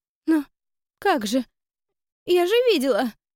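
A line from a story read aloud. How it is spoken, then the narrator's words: Sobbing. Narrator (Russian): всхлипнула Лиза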